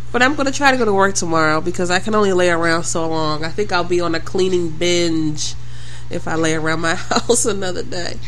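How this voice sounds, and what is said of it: Sick, under-the-weather voice. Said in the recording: “if you can tell from my voice, I'm a little under the weather”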